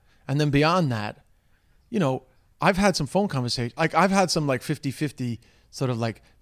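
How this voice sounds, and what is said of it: Strong New York accent. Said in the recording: “Americans hear my New York accent quite strongly. Like, it comes out very strongly to them.”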